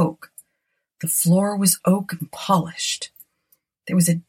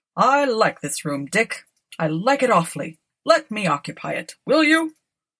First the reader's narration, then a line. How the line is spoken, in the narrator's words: He laughed